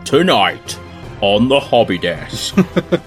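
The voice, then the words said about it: Dramatic movie trailer voice. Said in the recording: “we should do it in trailer voice.”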